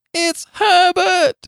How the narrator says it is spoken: she screamed

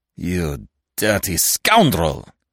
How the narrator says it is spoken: Ganimard snarled between his teeth

